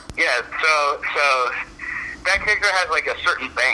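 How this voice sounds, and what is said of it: Usual voice. Nothing is said of it.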